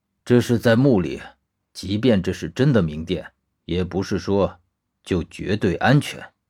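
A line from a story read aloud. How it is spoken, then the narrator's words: Cold. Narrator (Chinese): 薛泽冷冷地说道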